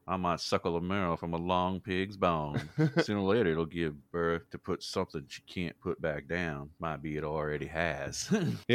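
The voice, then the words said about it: Put-on Southern US accent. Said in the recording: “all of a sudden I can just hear it in the southern accent”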